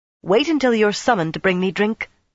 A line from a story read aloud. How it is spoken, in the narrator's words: she snapped